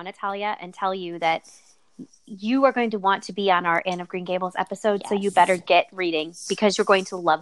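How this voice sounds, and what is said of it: Mom voice. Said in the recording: “I'm gonna put my mom voice on right now”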